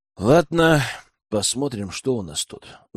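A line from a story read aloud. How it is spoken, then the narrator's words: Sighing. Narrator (Russian): вздохнул Герман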